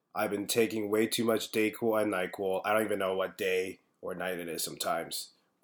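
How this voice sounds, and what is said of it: Congested voice. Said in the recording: “You can probably hear from my voice. I still have a bit of a congestion. I still got a bit of the cough”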